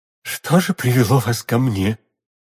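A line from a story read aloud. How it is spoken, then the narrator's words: Strained, choked voice. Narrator (Russian): сдавленным голосом проговорила миледи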